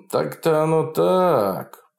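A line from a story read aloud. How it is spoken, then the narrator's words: Drawling. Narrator (Russian): протянул Фролов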